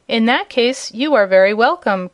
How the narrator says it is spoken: cried all the servants

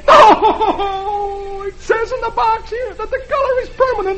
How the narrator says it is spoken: he howls

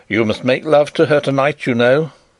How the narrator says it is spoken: Sapt said in a sharp, decisive voice

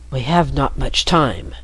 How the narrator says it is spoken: the man whispered

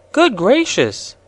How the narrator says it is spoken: exclaimed Betsy

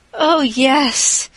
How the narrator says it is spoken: sighed Anne, blissfully unconscious of any sarcasm

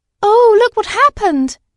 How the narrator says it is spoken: cried Dorothy

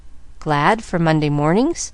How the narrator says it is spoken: Nancy laughed

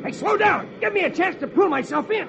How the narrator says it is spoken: He shouts

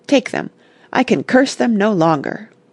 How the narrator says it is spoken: he cried

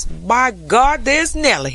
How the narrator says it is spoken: he cried

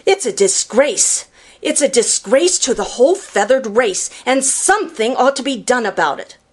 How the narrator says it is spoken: sputtered Jenny

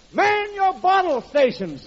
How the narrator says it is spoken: the boss yells

